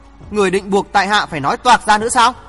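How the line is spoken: Very angry. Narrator (Vietnamese): Thượng Trí tức giận vô cùng ... nói

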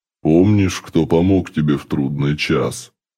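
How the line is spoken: Menacing question. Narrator (Russian): Грозно поинтересовался Доломис

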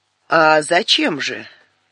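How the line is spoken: Spiteful old woman. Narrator (Russian): уже злобно сказала старуха

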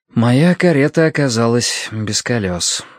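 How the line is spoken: Sigh. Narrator (Russian): вздохнул Словка

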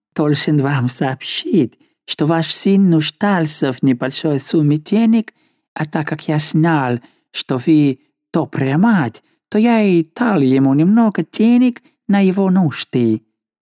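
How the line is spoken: Ingratiating tone. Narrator (Russian): Неизвестный пояснил ей заискивающим тоном

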